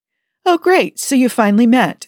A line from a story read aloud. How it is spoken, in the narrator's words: exclaimed the counselor, amused